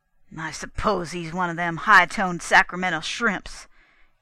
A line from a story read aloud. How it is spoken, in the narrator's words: burst out gruffly